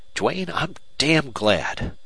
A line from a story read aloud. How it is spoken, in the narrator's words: McNelly exclaimed